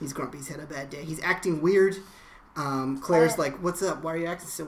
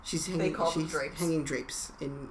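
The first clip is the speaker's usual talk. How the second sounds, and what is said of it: Bad put-on British accent. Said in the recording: “That's my bad British accent.”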